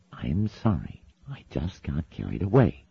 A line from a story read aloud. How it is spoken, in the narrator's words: hissed Azrafael